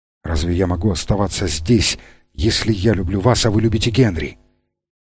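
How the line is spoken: Whispered reply. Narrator (Russian): таким же шепотом ответил

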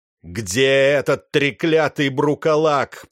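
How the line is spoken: Roaring. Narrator (Russian): проревел он

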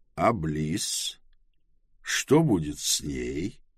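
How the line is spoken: Soft question. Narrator (Russian): мягко спросил Трэвис

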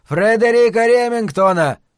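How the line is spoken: Full-lung shout. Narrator (Russian): прокричал он во всю мощь легких

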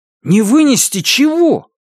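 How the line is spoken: Near shout. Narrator (Russian): почти крикнул Робби

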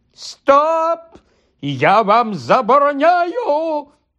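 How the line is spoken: Panicked shriek. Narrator (Ukrainian): Панічно заверещав дядько Вернон

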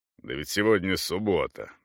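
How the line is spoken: Grumbling. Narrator (Russian): проворчал Йенсен

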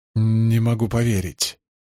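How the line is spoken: Trembling voice. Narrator (Russian): выговорил Гедер дрожащим голосом

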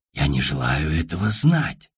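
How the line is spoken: Many voices whispering. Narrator (Russian): шепотом продолжили 5 дюжин родственников

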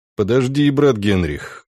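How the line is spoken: Calm, almost friendly. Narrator (Russian): голос Шпренгера звучал спокойно и почти дружелюбно

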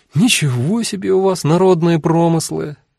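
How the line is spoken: Happy sigh. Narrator (Russian): счастливо вздохнула Эва

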